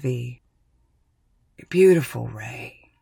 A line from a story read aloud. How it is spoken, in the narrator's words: he wheezes